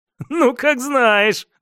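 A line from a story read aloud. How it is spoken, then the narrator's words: Laughing. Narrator (Russian): рассмеялся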